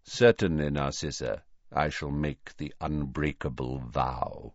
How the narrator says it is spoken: he said quietly

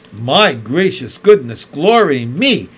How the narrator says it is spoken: exclaimed Mary Poppins

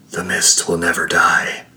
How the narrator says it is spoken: he whispered in her ear

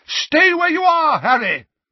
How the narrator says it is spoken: Dumbledore bellowed

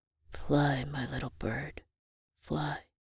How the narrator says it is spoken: I heard Granddad whisper in my ear

